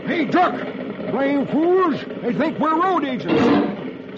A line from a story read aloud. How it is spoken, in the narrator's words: California shouts